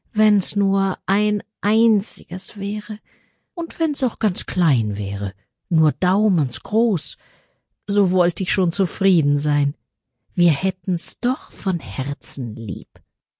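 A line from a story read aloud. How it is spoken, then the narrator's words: Sighing woman's reply. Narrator (German): antwortete die Frau und seufzte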